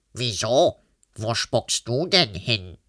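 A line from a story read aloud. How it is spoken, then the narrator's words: Unmoved monster grunt. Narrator (German): grunzte das Monster ungerührt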